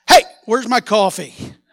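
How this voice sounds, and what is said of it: Loud yelling. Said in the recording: “Sorry for yelling. Some people jumped about that high”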